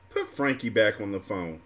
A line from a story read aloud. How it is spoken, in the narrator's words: Lauren said in an aggravated tone